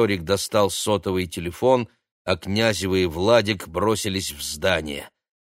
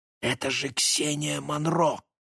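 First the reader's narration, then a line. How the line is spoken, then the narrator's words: Whispered. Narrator (Russian): прошептал Максим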